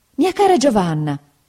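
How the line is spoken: Mother exclaiming. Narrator (Italian): esclamò mia madre

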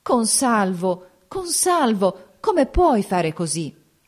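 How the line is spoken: Anguished reproachful exclamation. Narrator (Italian): giunte le mani tremanti, esclamò con voce d'angosciosa rampogna

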